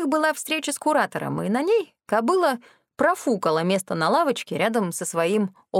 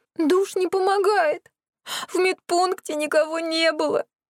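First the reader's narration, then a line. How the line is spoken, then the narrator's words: Sobbing fox. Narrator (Russian): прорыдала лисица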